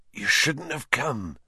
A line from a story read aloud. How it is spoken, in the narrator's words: Hagrid whispered